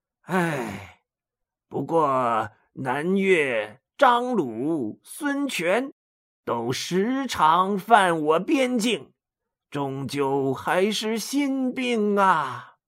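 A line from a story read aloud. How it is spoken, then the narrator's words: Sighing. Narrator (Chinese): 他又叹了一口气，说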